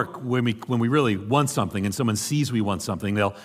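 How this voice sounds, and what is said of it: Usual voice. Nothing is said of it.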